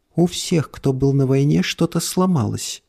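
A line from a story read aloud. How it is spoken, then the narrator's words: Woman's sad voice. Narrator (Russian): грустно сказала женщина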